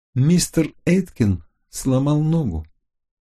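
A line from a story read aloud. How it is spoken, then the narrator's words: Quiet calm voice. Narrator (Russian): своим тихим, спокойным голосом сказала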